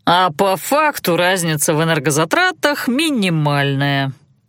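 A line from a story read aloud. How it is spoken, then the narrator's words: Drawling. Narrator (Russian): протянул Танаан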